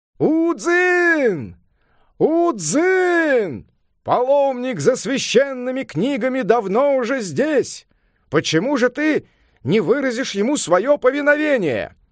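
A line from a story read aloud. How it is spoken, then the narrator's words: Loud shout. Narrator (Russian): Хуэй Ань громко крикнул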